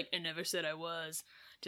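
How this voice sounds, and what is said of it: Imitates a character's voice, not very well. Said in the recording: “do you like my imitation? It's pretty good, right? No, it's not.”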